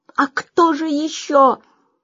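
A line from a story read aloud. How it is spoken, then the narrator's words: Shouted. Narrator (Russian): закричал эмир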